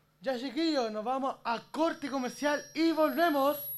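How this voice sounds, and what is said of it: Radio announcer voice. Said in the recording (Spanish): “con voz de locutor ... póngale color”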